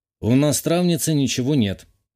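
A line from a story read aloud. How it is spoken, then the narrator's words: Gloomy reply. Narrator (Russian): мрачно ответил я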